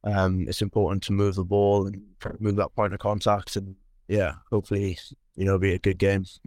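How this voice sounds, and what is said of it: Welsh accent from Carmarthen. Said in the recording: “people will be able to tell by your accent that you're from Carmarthen originally”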